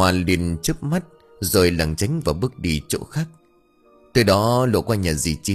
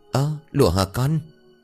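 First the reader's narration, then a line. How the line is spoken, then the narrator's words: Trembling woman's voice. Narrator (Vietnamese): Dì Chín nằm trên giường giọng run rẩy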